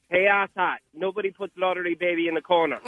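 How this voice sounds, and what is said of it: Irish accent. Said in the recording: “A little bit of an accent. Irish, it sounded, yes. ... Nice accent.”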